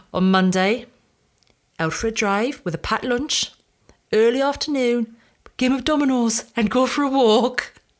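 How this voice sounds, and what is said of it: Put-on Geordie accent. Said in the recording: “my dad's a Geordie, so I will do the accent because it's just better”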